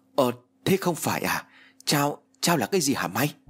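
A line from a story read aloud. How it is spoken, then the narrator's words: Stammering. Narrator (Vietnamese): Hữu lắp bắp nói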